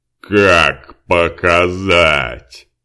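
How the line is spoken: Growl from the darkness. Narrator (Russian): прорычал кто-то из темноты

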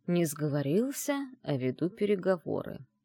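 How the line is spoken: Deadly calm reply. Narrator (Russian): убийственно спокойным тоном ответил Айдер

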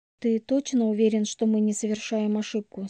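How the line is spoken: Plain question. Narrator (Russian): спросила у него

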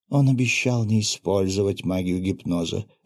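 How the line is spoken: Plain. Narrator (Russian): ответил советник императора

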